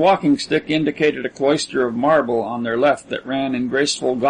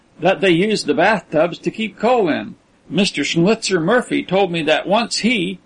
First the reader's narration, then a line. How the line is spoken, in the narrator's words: ventured John with an ingratiating laugh